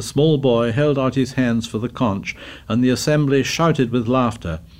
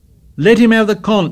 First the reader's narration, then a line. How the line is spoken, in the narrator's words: shouted Piggy